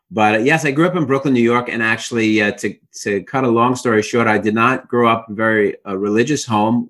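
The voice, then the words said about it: Brooklyn New York accent. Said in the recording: “I'm from Brooklyn, New York, as any of your listeners or viewers could tell from my accent immediately”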